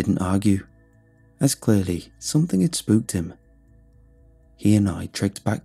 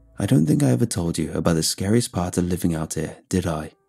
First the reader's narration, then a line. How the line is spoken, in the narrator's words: Mark asked